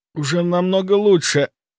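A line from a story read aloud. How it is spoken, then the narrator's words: Hoarse. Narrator (Russian): хрипло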